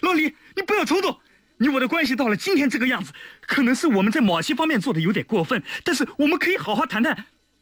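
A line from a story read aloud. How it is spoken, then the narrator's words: Desperate shout. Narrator (Chinese): 马天生僵住了，他不顾一切地喊道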